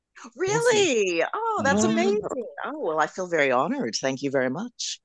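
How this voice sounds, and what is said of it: Canadian accent. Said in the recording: “from your accent ... you're not originally from the UK ... you're Canadian ... I still sound Canadian”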